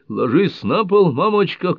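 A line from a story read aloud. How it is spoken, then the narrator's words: Shouting. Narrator (Russian): кричал Мэнни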